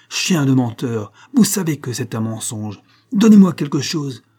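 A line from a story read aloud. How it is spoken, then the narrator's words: Shouting. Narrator (French): cria le capitaine Prodder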